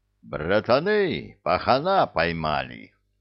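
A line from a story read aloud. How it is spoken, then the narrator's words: Joyful. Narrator (Russian): радостно сообщил капитан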